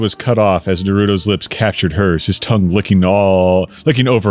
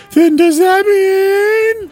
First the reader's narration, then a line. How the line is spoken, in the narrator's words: Mina excitedly saying